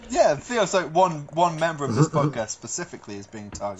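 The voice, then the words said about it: Put-on British accent. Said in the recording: “are you British? ... I just put on this accent because it makes me sound smart.”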